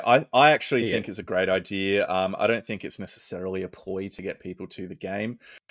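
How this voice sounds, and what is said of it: Strained, worn-out voice. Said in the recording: “My voice is gone”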